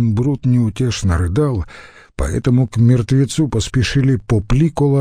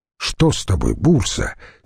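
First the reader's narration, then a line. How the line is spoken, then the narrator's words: Angry strained question. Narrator (Russian): сердито спросил Антоний, едва удерживая накренившиеся носилки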